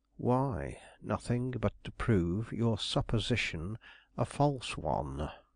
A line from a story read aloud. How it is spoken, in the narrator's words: Gryce quietly responded